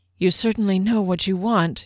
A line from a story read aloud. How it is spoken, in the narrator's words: he breathed